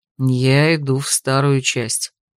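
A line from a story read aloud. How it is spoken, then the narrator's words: Quiet reminder. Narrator (Russian): напомнил тихо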